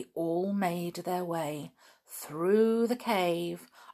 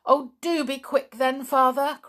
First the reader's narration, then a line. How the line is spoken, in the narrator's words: cried George, getting in quite a panic now